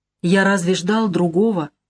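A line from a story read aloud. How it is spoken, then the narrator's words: Dull, muffled question. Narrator (Russian): глухо спрашивает он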